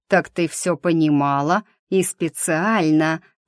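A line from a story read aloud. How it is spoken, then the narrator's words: Near growl. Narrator (Russian): почти прорычал Норрис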